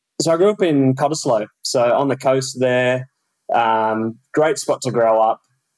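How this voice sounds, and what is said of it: Strong Australian Perth accent. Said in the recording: “I think the Perth accent is still strong”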